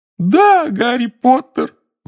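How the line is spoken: Wail. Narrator (Russian): взвыл Добби

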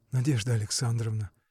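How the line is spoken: Barely audible, agitated. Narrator (Russian): Едва слышно проговорил он в волнении

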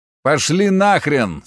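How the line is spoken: Tired. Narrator (Russian): сказал я устало

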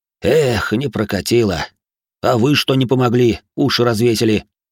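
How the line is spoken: Sighing. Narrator (Russian): Вздохнул Дмитрий

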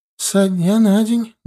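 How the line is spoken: Sad old woman. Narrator (Russian): грустно ответила старушка

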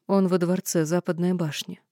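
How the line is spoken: Calm and confident. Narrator (Russian): говорила я спокойно и уверенно

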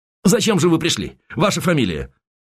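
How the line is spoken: Quick question. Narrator (Russian): Морозов быстро спросил

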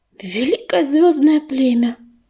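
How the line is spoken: Loud sigh. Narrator (Russian): шумно вздохнула Рыжинка

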